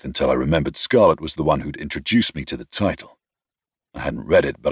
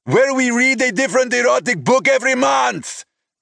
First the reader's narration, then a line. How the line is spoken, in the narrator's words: he shouted